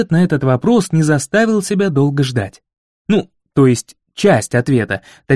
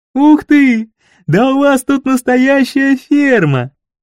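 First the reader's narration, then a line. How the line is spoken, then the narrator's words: Laughing. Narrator (Russian): рассмеялся Гайшери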